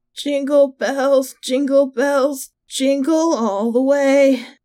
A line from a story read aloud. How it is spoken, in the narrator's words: Painfully clearing my throat, I croaked out